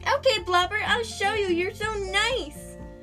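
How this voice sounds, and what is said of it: High-pitched, ridiculous character voice. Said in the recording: “an especially high-pitched and absolute ridiculous voice ... my imitation Muffin voice”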